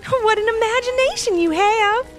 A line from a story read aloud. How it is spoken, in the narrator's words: she said with a laugh